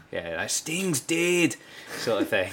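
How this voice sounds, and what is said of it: Poor put-on Scottish accent. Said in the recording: “this is in a Scottish accent, so ... it sounds funnier. ... I've never known how bad I am at accents.”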